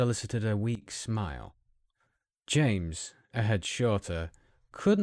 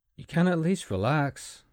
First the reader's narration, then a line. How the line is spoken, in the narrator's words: James said